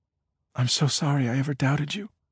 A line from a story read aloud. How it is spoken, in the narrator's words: Amy whispered on a trembling breath